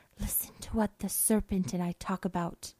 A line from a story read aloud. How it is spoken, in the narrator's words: The girl whispered